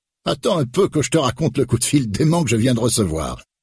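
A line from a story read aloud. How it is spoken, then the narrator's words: Exclaimed. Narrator (French): s'exclame-t-il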